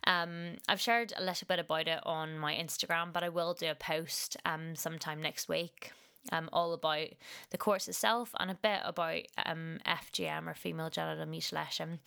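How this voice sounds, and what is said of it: Husky, slightly hoarse voice. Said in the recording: “my voice sounds a bit different here ... I've had a bit of a mild cold ... I've got a bit of a husky voice, so if I sound different to what I normally sound like”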